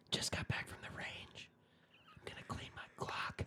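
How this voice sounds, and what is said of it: ASMR whisper, slightly louder. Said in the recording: “whispering, but then they get a little more than a whisper”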